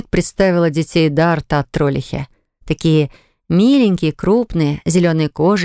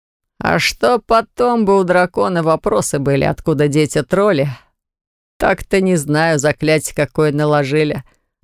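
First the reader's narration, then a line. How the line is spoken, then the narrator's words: Loud laughter. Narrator (Russian): расхохотался Траум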